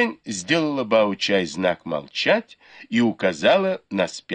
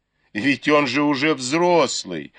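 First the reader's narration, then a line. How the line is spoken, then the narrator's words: Laughing. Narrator (Russian): засмеялась Бао-чай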